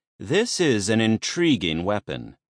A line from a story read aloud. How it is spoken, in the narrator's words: he said